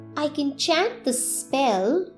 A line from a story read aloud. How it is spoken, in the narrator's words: she murmured